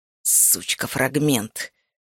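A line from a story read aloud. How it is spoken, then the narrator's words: Hissing. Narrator (Russian): прошипел он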